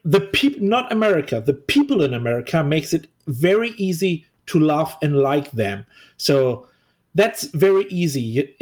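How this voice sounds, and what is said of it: Non-native English accent. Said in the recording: “I'm obviously not a native English tongue... this is my second language... you have a different accent”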